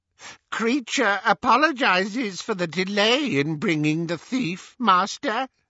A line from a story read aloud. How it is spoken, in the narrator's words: croaked the elf